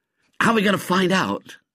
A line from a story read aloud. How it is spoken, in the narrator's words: said Ginger eagerly